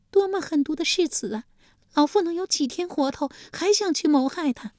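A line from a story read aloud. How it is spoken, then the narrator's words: Furious wailing. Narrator (Chinese): 晋献公气得又是咬牙又是跺脚，立即也嚎啕大哭起来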